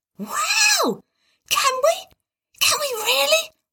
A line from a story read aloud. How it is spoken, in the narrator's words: whispered Tim